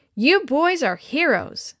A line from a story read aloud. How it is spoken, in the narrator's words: Driving away, he shouted back